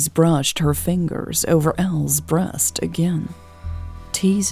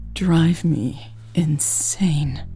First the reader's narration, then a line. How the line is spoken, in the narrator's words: panted